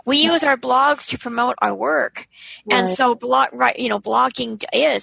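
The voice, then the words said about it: Strained, failing hoarse voice. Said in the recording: “I'm losing my voice.”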